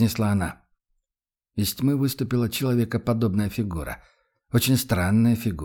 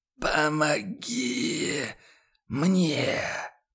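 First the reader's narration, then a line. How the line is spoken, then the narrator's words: Sudden hoarse, chilling voice. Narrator (Russian): Послышался вдруг сиплый голос, от которого по спине девушки пробежали мурашки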